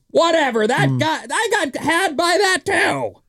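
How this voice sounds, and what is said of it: Bad impression of a listener. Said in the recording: “that's a bad impression of you”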